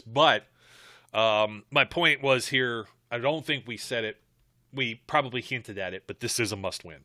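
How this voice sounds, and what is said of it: Strained voice, losing his voice. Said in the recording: “I'm already losing my voice.”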